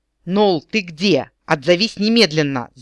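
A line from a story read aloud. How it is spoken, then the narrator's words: Loud yell. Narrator (Russian): заорал Эрин Рандир на все кафе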